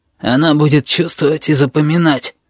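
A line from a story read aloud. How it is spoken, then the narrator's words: Hoarse voice explaining. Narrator (Russian): поясняет хриплый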